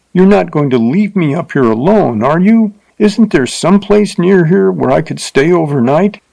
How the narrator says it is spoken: she cried, forgetting her insulted dignity

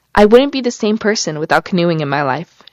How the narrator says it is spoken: she said

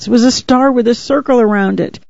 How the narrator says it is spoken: he sobbed, choking out the words

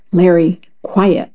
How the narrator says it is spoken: I said again sternly

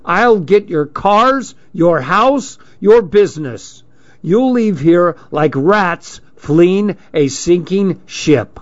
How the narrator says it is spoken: shouting

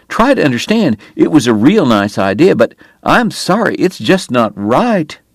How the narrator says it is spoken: Wyatt pleaded

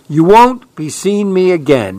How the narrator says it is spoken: he cried

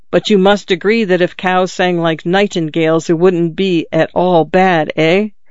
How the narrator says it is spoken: The father smiled skeptically and growled again

